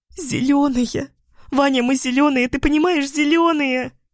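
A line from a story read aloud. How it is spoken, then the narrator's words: Sobbing, choking repetition. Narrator (Russian): как заведенная, повторяла одну и ту же фразу, то захлебываясь словами, то давясь рыданиями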